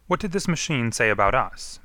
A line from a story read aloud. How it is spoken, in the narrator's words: Manning asked sharply